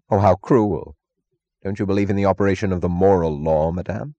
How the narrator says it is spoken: Francisco asked gravely

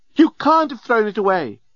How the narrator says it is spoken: screamed the remarkably attractive and available female alien

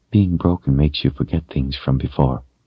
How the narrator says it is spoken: said quietly

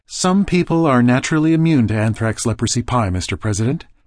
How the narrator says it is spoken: Filariasis said

